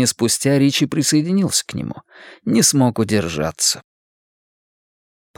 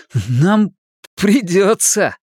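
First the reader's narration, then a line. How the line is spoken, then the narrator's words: Maniacal laughter. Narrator (Russian): Он захохотал, как безумный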